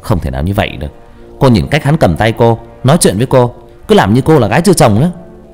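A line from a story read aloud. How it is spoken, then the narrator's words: Sulky resentment. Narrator (Vietnamese): Hào hậm hực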